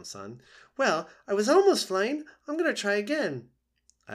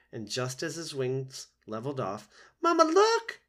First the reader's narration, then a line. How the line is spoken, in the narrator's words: He squeaked as his feet left the ground